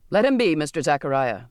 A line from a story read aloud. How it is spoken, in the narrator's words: the captain barked